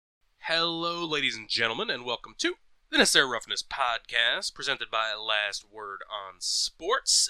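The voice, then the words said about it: Sick, under-the-weather voice. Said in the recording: “you might hear it in my voice, I'm a little under the weather this week ... I was sounding worse yesterday, coughing up a”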